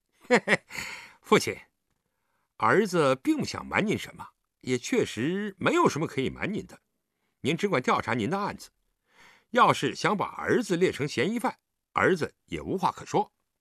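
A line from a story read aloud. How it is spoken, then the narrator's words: Trembling cold sneer. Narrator (Chinese): 狄景辉全身哆嗦了一下，冷笑道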